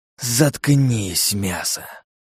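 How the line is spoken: Snake-man hissing. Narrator (Russian): прошипел змеелюд

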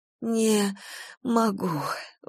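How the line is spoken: Strained, forced out. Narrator (Russian): выдавила Галя

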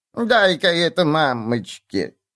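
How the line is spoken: Sweet elderly drawl. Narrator (Russian): милым старческим голоском протянула она

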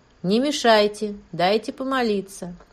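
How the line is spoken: Calm indifferent tone. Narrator (Russian): все та же спокойно равнодушная фраза

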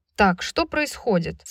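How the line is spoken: Loud powerful question. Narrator (Russian): спросил Деклан своим мощным голосом, перекрывая музыку и разговоры

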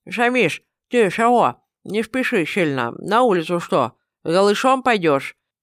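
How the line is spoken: Mumbling with full mouth. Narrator (Russian): Набив рот густо приправленным специями мясом, прошамкал я

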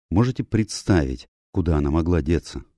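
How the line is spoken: Plain. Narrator (Russian): спросил я

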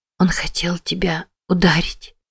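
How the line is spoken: Whisper. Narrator (Russian): прошептала Мэтти

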